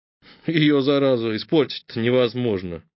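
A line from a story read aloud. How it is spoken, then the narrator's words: Muttered aside. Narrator (Russian): пробурчал в сторону ячменный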